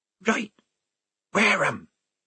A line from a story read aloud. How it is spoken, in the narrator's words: said the mystery voice hoarsely